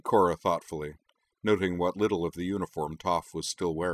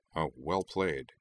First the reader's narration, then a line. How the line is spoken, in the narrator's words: he muttered to Toph